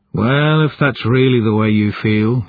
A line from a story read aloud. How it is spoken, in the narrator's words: he sighed